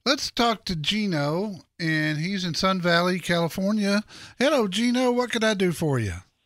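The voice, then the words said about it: Noticeable regional, possibly Texan, accent. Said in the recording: “love your accent ... God bless Texas, man.”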